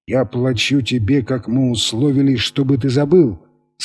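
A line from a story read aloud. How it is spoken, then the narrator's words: Plain. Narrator (Russian): сказал Торрес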